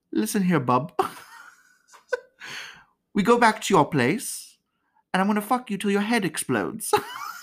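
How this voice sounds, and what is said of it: Put-on Essex English accent. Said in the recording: “I do like an Essex accent... I love my Brits from Essex... they'd be like... I don't know if I did that right, but I tried.”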